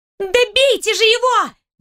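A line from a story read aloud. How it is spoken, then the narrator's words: Girl shrieking. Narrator (Russian): Взвизгнула светловолосая девушка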